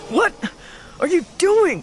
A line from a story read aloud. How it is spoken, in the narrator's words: grunted